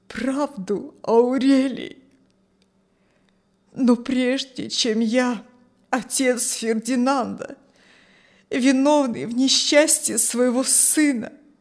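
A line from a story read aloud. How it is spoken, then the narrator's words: Trembling voice, old man. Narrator (Russian): говорил старик дрожащим голосом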